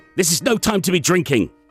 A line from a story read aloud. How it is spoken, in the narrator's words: Sondal snapped